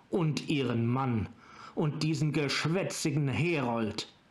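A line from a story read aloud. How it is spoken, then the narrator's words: Barking. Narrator (German): bellte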